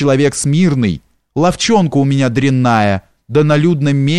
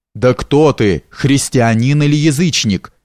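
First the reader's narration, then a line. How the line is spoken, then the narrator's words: Plain question. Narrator (Russian): спросил Юний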